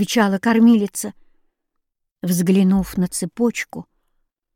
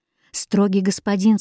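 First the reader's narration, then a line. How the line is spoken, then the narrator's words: Plain. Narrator (Russian): сказала она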